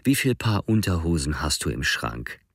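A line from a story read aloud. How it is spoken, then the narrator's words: Gentle voice. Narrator (German): fuhr mit sanfter Stimme fort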